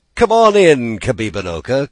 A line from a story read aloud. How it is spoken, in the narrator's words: called Shingebiss merrily